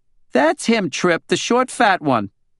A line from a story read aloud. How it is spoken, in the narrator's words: Deanna Nuxhall from divorce court, and she yelled